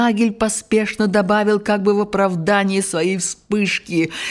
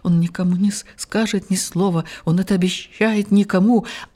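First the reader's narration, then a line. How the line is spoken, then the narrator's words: Incoherent mumbling. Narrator (Russian): только немного спустя снова бессвязно забормотал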